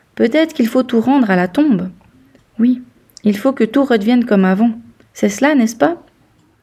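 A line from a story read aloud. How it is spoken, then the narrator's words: Hesitant. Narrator (French): commença-t-il d'un ton hésitant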